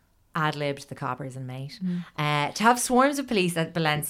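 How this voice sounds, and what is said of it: Usual voice. Nothing is said of it.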